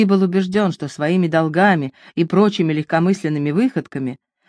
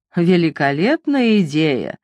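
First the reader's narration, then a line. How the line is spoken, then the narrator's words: Mocking. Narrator (Russian): насмешливо ответил Карл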